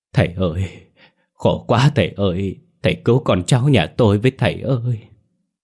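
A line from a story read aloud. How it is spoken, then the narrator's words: Trembling, sobbing woman. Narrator (Vietnamese): bà thím ấy toàn thân rơi run rẩy, miệng phát ra tiếng khóc rưng rức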